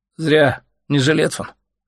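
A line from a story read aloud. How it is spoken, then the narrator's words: Sleepy verdict. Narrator (Russian): сонно приговорил Олежка брокер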